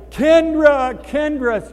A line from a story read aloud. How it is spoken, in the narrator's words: yelling